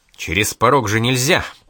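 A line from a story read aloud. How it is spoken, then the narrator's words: Grumbled. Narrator (Russian): пробурчал Штейн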